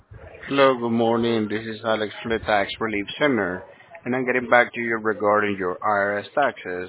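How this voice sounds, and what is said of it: Foreign accent. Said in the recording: “you sound like you got an accent. You're probably from another country.”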